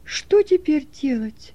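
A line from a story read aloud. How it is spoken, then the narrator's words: Helpless exclamation. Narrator (Russian): воскликнул Стефан, беспомощно ломая руки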